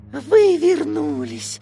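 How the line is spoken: Tired, smiling. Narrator (Russian): устало улыбнулся Микки

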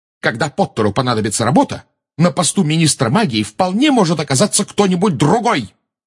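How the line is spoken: Shouting. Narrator (Russian): выкрикнула МакГонагал

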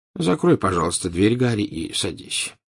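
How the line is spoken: Tired. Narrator (Russian): устало сказал Дамблдор

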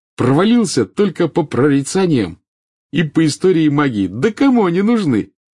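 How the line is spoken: Cheerful. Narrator (Russian): весело сказал

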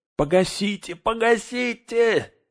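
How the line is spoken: Distorted screaming. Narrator (Russian): не своим голосом завопил Мэри

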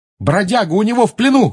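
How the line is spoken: Shouted. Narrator (Russian): крикнул

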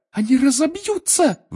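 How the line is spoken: Shrill squeal. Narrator (Russian): взвизгнула Гермиона

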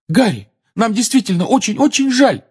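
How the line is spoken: Desperate exclamation. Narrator (Russian): в отчаянии воскликнула Гермиона

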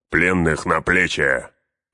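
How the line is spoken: Bark. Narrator (Russian): рявкнул Углук

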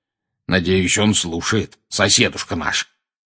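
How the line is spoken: Growling. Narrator (Russian): прорычал дядя Вернон

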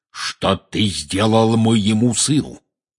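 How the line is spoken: Menacing growl. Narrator (Russian): грозно зарычал он

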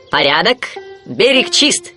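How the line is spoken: Shout. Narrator (Russian): крикнул Вуди

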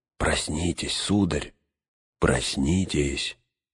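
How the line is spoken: Quiet, gentle. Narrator (Russian): склонившись к нему, тихо проговорил

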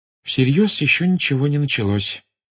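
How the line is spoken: Gloomy sigh. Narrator (Russian): мрачно вздохнула Гермиона

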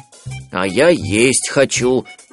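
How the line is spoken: Grumbled. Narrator (Russian): ворчал Берлиоз

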